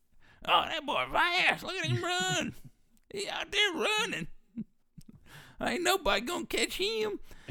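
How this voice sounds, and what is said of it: Put-on rural accent. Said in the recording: “you just got a completely different accent ... Wearing overalls.”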